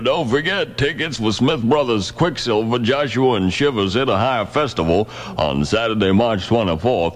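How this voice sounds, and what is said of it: Affected Southern accent, Foghorn Leghorn-like. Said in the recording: “affect the Southern accent ... It's kind of like Foghorn Leghorn.”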